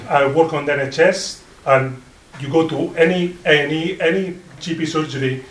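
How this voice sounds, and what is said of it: Non-native English accent. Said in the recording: “my accent, it's not Yorkshire accent, I'm trying very hard, but for 19 years, I still have my accent”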